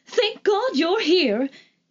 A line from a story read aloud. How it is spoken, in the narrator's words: exclaimed